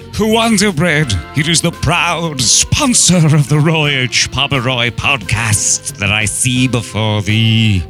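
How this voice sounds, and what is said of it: Mock Shakespearean accent. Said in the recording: “Shakespeare accent for the win. Total knockout.”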